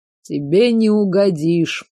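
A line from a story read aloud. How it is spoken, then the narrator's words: Grumbling. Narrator (Russian): проворчал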